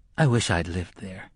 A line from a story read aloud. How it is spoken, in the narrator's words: Jake said wistfully